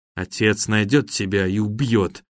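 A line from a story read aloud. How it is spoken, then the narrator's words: Boy, through clenched teeth. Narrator (Russian): процедил сквозь зубы мальчик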